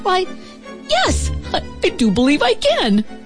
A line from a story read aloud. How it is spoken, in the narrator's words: Calvin, the happiest starling in the whole wide world, chirped